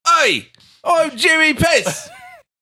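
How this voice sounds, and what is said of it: Put-on Cockney accent. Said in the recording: “He should have a Cockney accent.”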